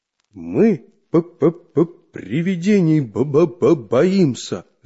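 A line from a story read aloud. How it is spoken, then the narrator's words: Stammering, barely audible. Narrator (Russian): заикаясь, еле выговорил Чижик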